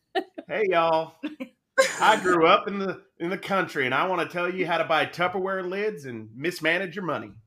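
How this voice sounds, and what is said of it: Fake country accent. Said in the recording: “I have a fake country accent on my lives. ... Wait, can you do your country accent again? ... Oh man, that's good.”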